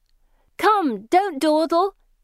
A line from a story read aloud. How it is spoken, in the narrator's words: they shout merrily